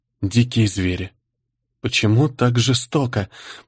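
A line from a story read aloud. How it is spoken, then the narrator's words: Moaning. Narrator (Russian): простонала Ольга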